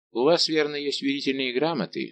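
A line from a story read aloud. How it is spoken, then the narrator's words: Dry, annoyed question. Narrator (Russian): спросил Мазарини сухо и с досадой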